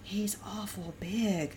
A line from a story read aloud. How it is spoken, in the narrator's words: Laura whispered